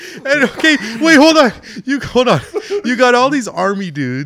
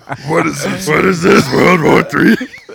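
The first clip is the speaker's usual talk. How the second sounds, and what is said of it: Grover-like cab driver voice. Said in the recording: “that was a good impression of the cab driver... It's fucking Grover from Sesame Street.”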